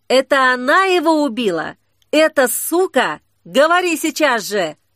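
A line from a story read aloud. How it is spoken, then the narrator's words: Furious yell. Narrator (Russian): Саблезуб заорал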